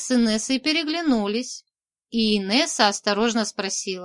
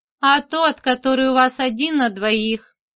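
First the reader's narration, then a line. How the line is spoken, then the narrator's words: Vile cackle, old vagrant woman. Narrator (Russian): сказала бомжиха и отвратительно хохотнула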